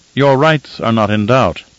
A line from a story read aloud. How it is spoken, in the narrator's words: Kynes said, his tone as steady as the shield wall